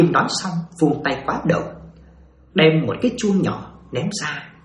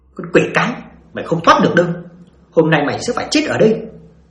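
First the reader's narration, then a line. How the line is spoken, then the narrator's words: Shouting. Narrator (Vietnamese): bà quát lên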